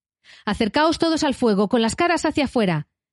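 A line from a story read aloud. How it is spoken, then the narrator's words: Shouting. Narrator (Spanish): gritó Trancos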